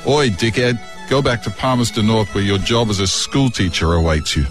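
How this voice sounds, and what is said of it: Weak put-on accent. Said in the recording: “The accent wasn't so good at the end.”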